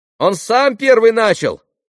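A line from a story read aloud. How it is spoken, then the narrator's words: Irritated child's shout. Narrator (Russian): закричал мальчик раздраженным детским голоском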